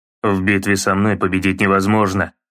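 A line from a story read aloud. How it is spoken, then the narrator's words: Grumbling. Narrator (Russian): проворчал Кратос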